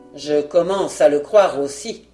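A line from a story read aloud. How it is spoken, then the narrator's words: Hunchback grumbling through teeth. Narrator (French): appuya le bossu, et il grommela entre ses dents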